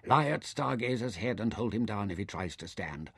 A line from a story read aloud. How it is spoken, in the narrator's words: he told Nefer sharply